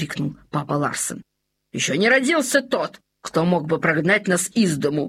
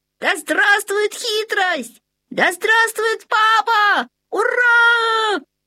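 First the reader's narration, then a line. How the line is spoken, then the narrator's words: Joyful shouting young foxes. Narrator (Russian): Закричали обрадованные лисята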